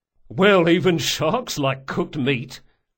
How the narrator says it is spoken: said the sergeant with a chuckle

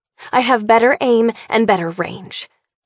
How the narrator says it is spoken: I snarl

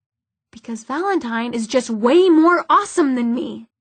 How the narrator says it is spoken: snapped Magnus

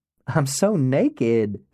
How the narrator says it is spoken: she says, and laughs

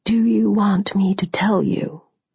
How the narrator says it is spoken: He asked, his voice quiet

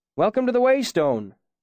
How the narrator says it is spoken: the innkeeper called out from behind the bar

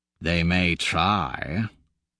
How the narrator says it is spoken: he growls

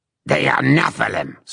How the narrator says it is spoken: spat Itarlum

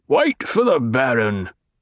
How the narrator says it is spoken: a guard officer snarled

